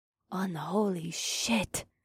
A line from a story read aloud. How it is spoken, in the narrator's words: Akira gasped